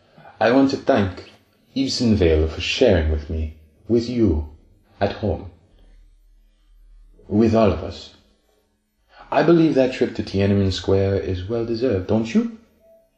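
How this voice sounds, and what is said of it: French accent. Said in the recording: “greets Dr. Taupe in a French accent”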